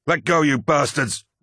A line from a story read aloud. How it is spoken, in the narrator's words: roared Luke Sedere, hauling with all his might